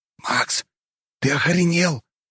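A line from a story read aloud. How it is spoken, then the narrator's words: Hiss. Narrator (Russian): прошипел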